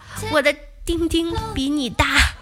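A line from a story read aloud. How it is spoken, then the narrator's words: Whisper. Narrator (Chinese): 悄悄跟大白马耳边说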